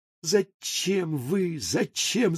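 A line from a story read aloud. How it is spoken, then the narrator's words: Mutter. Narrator (Russian): забормотал господин Неймлис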